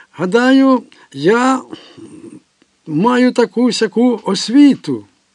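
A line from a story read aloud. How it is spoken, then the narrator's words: Shout from distance. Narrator (Ukrainian): крикнув Кін за 5 кроків від Конфуція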